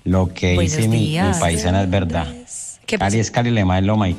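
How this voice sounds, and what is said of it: Colombian Cali accent. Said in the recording (Spanish): “ese acento tan lindo ... caleño”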